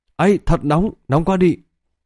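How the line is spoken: Frightened cries. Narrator (Vietnamese): phát ra tiếng kêu sợ hãi

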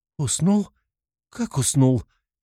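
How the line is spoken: Hysterical hiccuping laughter through tears. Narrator (Russian): Нервно икает, истерично смеется сквозь слезы, снова рыдает

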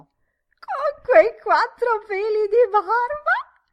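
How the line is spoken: Delighted indignant female shriek. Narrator (Italian): Deuce diè pieno sfogo a uno splendido strillo, uno strillo pieno di donna piena, delizia, gioia, indignazione

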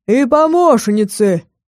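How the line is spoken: Men barking together. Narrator (Russian): рявкнули мужики

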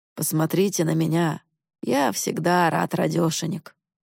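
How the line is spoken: Sad. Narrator (Russian): грустно сказал

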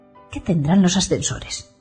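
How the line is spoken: Muttering to himself. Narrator (Spanish): murmura para sí mismo

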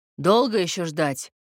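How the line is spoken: Menacing bass. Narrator (Russian): грозно пробасил лысый

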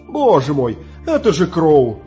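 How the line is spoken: Relieved exclamation. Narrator (Russian): с облегчением воскликнул Джонни

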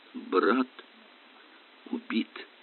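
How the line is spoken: Muttering. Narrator (Russian): пробормотал доктор Темпл

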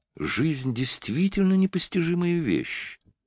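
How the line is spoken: Sighing. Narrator (Russian): вздохнула она

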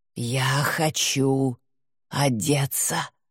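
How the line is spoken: Hoarse. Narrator (Russian): прохрипела она

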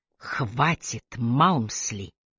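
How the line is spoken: Quiet command. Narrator (Russian): негромко приказала Трой

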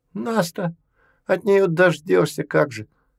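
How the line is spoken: Sympathetic sigh. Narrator (Russian): Афанасий сочувственно вздохнул

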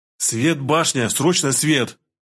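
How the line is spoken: Nearly shouting, urgent. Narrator (Russian): Опять чуть ли не орал я

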